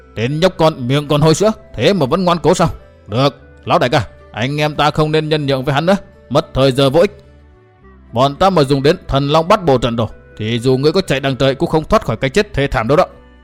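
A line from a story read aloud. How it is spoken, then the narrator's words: Furious tiger-like roar. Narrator (Vietnamese): Đệ nhị đầu đà cả giận, lão gầm lên như hổ dữ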